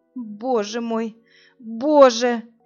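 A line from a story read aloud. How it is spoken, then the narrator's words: Despairing moan. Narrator (Russian): Простонала Инна, чувствуя, что сходит с ума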